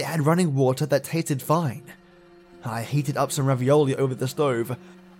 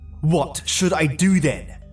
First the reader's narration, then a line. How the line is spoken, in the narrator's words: I spat